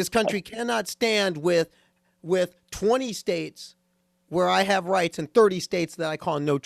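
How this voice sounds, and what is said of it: Usual voice. Nothing is said of it.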